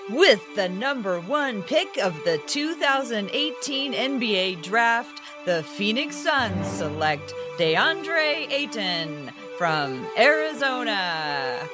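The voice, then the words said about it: Cheesy announcer voice imitating someone. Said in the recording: “my cheesy Adam Silver imitation ... It was really good.”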